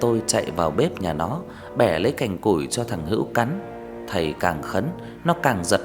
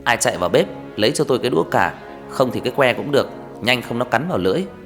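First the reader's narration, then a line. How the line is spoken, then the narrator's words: Teacher shouting. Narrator (Vietnamese): Thầy quát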